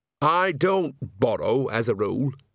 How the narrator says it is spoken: said Nanny firmly

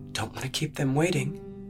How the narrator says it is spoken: she murmured, biting her cheek

